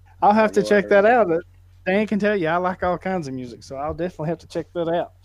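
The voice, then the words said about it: Southern twang accent. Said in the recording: “southern twang”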